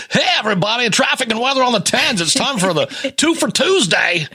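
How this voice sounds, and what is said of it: Obnoxious radio DJ voice. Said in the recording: “I always pictured the obnoxious, you know ... kind of guy”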